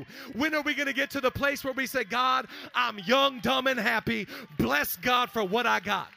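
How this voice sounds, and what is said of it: Excited yelling. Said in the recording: “I'm yelling. I'm getting so excited.”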